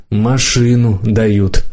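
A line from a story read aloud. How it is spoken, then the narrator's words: Sighing. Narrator (Russian): вздохнула мама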